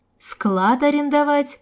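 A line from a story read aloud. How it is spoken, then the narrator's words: Prompting. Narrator (Russian): подсказала ему Марина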